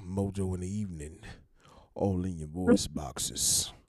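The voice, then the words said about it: Deep baritone radio DJ voice. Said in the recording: “deep baritone Barry White imitation ... radio voice”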